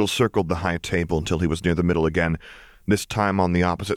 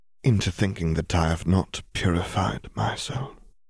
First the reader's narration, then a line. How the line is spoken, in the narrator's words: he said, so quietly that perhaps only Bill could hear